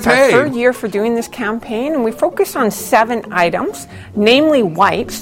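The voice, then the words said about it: Odd accent, strange-sounding voice. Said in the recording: “this woman's ridiculous accent ... Is that how they all sound in British Columbia? ... What is wrong with this woman's voice? ... She's wearing a retainer ... An ill-fitted retainer”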